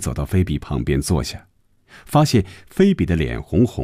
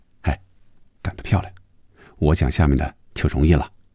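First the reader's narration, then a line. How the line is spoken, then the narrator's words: Close to ear, laughing. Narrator (Chinese): 李龙伟贴着红军的耳边笑着说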